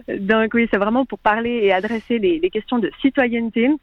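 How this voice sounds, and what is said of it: Speaks French with a foreign accent. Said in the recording (French): “Pardonnez mon accent.”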